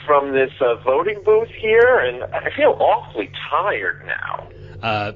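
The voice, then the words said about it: Imitates another person's voice. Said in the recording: “my terrible Syl impersonation”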